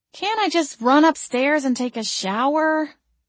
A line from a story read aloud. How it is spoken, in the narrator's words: I whined